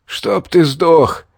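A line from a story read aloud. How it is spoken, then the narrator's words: Young man, hoarse rasp. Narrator (Russian): прохрипел парень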